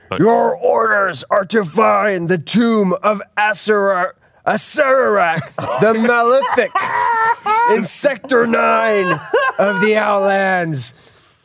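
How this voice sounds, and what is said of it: Devil character voice. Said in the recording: “probably do the devil voice.”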